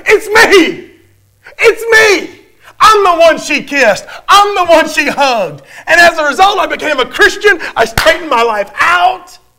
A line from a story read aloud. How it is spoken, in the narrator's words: this middle-aged man just jumped up and shouted